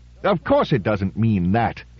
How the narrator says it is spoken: said Reed indignantly

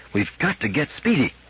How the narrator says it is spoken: repeated Powell earnestly

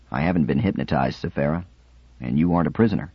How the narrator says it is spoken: Theremin said quietly

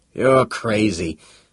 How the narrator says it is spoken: began huskily

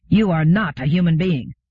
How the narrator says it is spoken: The woman said just as harshly in her higher register

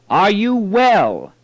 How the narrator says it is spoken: He shouted again

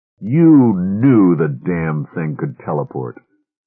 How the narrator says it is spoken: Laverty said bitterly

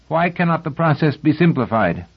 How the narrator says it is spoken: Cleon asked sharply

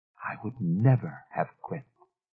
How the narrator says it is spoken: Miss Fellows said softly

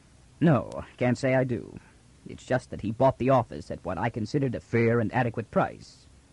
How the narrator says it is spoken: Rios said calmly

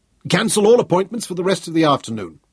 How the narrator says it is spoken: Selden barked into his communication wire

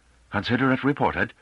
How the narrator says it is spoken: Gorisavata said irritably

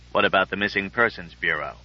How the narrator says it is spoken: Drake said coolly

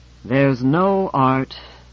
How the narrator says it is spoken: sighed and repeated

